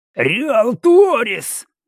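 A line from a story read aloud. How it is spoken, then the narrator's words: Angry cursing yell. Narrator (Russian): заорал парень на Талрионском, проклиная все на свете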